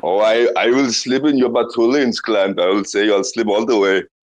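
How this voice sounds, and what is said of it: Exaggerated put-on foreign accent. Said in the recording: “you can drop the accent... the accent”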